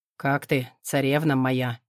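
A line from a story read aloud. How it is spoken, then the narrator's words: Velvety smooth voice. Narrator (Russian): бархатным голосом стелет Олег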